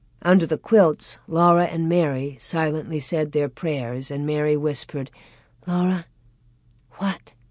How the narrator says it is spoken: Laura whispered

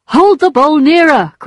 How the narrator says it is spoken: cried Charles

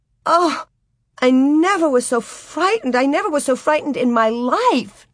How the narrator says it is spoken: Nellie chattered and gasped

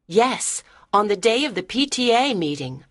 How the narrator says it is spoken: I said

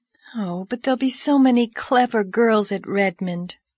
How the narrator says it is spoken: sighed Diana

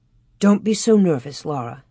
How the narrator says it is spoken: Ma murmured as if she were half asleep

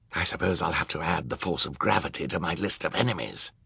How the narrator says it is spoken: Olaf muttered

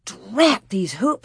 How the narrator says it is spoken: she muttered

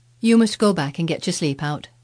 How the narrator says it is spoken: she said

